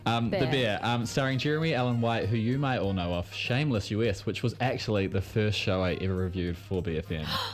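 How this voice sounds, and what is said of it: Thick New Zealand accent. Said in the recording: “I can't say my bears and my beers because I've got that weird Kiwi thickness ... of my accent.”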